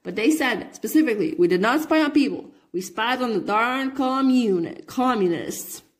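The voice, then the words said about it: Attempted Alabama accent. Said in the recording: “my attempt to make, to do Alabama accent”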